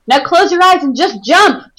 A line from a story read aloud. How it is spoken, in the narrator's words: Toby yelled up to her